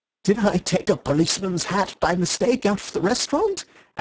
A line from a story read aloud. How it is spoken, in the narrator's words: asked Syme, smiling wildly